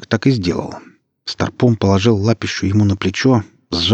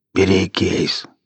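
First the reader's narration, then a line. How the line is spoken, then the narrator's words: Hoarse rasp. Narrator (Russian): прохрипел Старпом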